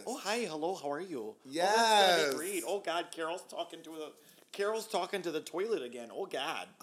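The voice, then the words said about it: Put-on Minnesotan accent. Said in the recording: “I'm speaking with a Minnesotan accent that I stole from Drop Dead Gorgeous”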